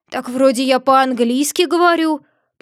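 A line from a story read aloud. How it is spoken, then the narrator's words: Frog butler's grumble. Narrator (Russian): проворчал дворецкий лягушка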